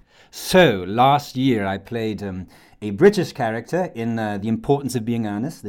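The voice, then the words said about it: Posh British accent. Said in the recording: “This is me with a rather posh British accent.”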